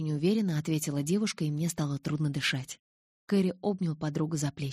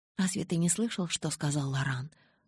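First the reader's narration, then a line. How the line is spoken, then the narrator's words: Whispered question. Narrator (Russian): шепотом спросила я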